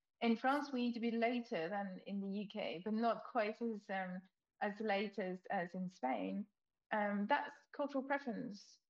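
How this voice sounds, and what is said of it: French accent. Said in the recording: “because of my accent, I'm French”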